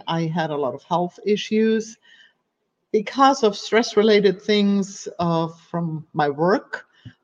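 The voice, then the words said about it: German accent in English. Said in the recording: “as you can hear, I have an accent. So I'm from Germany”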